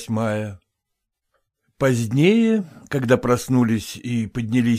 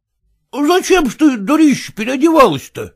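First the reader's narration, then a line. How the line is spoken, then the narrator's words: Exclaimed. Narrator (Russian): воскликнул басонщик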